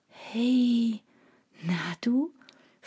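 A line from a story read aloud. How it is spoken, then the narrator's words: Whispered to a cat. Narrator (German): flüsterte ich dem Kater zu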